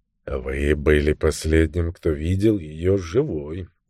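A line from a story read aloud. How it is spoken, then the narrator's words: Soft. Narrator (Russian): мягко сказал Баттл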